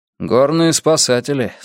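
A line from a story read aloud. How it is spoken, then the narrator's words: Dry. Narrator (Russian): сухо сказал Йона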